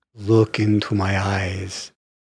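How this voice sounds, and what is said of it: Dracula-style vampire voice. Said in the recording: “his Dracula impersonation.”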